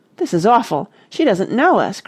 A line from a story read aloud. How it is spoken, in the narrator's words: cried Martha